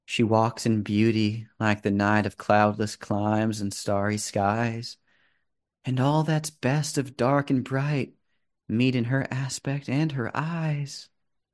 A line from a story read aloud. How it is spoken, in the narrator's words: Her voice gets very soft as she just, not looking at you, just kind of says